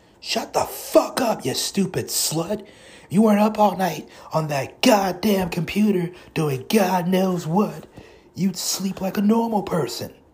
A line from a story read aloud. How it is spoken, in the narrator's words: Kira's mother screamed from downstairs